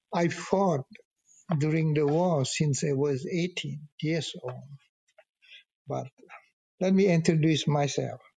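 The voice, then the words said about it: French-accented English. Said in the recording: “I go back to the French accent, somebody may not understand my English”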